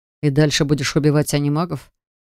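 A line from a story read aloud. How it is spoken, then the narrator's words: Snorting. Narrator (Russian): Хмыкнул Джар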